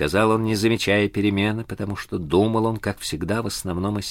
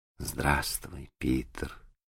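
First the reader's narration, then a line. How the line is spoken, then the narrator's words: Quiet, timid voice. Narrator (Russian): ответила она тихо, стараясь сжаться в комочек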